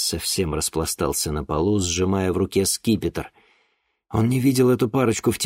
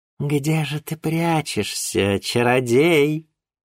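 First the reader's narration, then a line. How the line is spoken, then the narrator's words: Purring, princess. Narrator (Russian): промурлыкала княгиня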